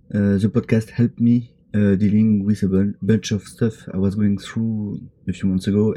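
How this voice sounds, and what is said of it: Heavy non-native English accent. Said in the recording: “my atrocious accent. More than one time, I can't even understand myself.”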